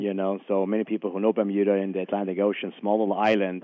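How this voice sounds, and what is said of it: Austrian-accented English. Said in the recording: “my funny accent ... I'm originally from Vienna, Austria”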